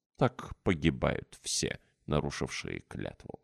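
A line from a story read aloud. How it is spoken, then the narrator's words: Solemn. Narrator (Russian): сказал торжественно Алексей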